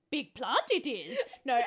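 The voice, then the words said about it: Bad Yoda impression. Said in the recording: “That was bad. ... I can't condone that Yoda impression.”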